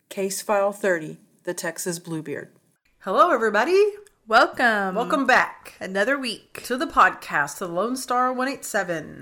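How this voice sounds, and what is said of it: Game show host voice. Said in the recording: “why am I talking like that? ... have your game show voice on? ... Yes.”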